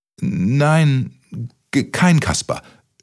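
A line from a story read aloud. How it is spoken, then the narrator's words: Stammered. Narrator (German): stotterte Kaspermütze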